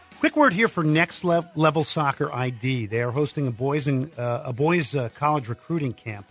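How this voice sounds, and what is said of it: Strained, failing hoarse voice. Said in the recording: “losing my voice, so we're pushing it here.”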